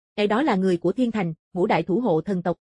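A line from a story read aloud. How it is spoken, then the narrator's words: Soft amused speech. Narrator (Vietnamese): Tử Hàn cười sâu hơn, khẽ nói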